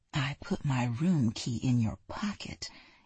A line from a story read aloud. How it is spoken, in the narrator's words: Amy whispered in his ear